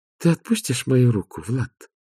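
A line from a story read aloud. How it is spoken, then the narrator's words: Tender. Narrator (Russian): ласково сказала Агнесса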